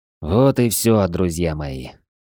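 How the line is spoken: Tired. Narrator (Russian): устало заговорил Рэндалл

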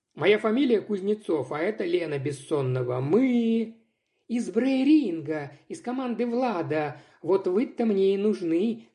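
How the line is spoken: Rude, joyful interruption. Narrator (Russian): довольно невежливо, но радостно перебила

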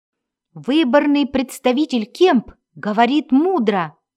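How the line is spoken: Exclamation. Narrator (Russian): воскликнул он

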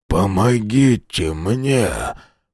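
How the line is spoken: Hoarse wheeze. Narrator (Russian): прохрипел Хьюстон

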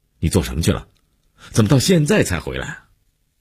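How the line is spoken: Angry, abrupt question. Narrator (Chinese): 姐夫一脸温怒，劈头就问

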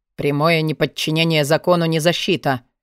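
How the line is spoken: Dry. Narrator (Russian): сухо сказал Форси

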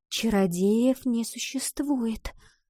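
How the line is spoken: Whisper. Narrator (Russian): снова прошептала Ива

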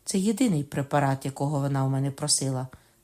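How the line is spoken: Plain. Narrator (Ukrainian): сказав Рене

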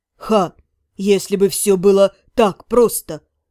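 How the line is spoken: Scornful snort. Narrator (Russian): фыркнул

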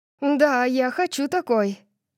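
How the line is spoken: Impatient. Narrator (Russian): нетерпеливо сказала я

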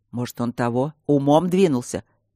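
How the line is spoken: Loud whisper. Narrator (Russian): громко прошептал Мартин

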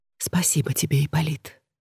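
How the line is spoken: Whisper. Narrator (Russian): прошептала Клеопатра

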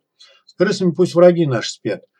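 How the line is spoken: Sighing madman. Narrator (Russian): вздохнул псих

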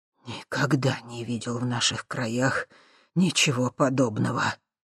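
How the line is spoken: Breathless muttering. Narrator (Russian): пытаясь отдышаться, пробормотал Михалыч

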